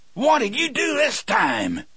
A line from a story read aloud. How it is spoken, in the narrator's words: Dean shouted at Percy